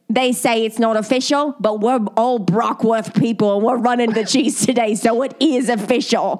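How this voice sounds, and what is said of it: Put-on Cockney English accent. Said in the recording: “I'm going to say in the accent that I think that these people probably said it in ... Well, that's more Australian. ... what's Cockney sound like?”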